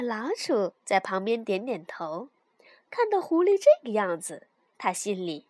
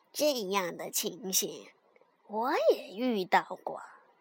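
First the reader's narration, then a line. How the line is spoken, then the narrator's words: Sighing. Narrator (Chinese): 他叹了口气说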